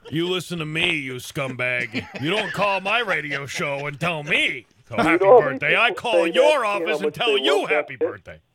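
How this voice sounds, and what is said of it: Imitates another person's voice. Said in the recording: “that impression”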